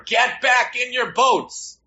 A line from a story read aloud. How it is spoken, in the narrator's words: the supervising counselor started yelling at everyone jumping in the water